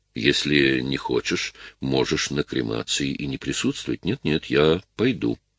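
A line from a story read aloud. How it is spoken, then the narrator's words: Calm. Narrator (Russian): спокойно сказала Клэр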